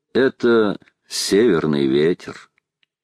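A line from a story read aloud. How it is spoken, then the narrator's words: Calm, smiling. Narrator (Russian): улыбнулся и спокойно сказал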